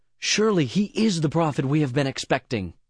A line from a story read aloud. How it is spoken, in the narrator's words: they exclaimed